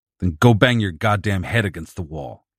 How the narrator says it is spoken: snapped

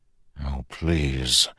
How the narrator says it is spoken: mutter in a half-conscious prayer

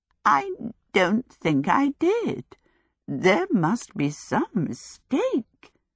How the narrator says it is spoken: Sophie croaked

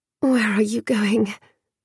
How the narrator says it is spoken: came a murmur, muzzy with sleep

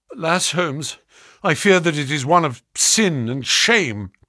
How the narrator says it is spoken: cried my friend

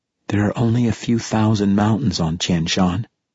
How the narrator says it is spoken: she said, her voice flat and unhappy

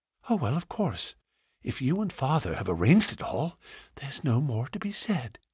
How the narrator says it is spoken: whispered, with her cheek against his broad breast

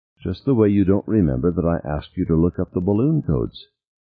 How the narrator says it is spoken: Beth was saying in her calm voice

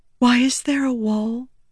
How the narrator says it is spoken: Shallan whispered

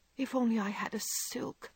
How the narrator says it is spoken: sighed Meg

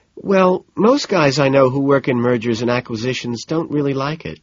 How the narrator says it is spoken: she says

